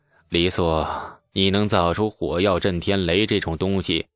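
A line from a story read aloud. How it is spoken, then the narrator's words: Sighing. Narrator (Chinese): 李世民又叹了口气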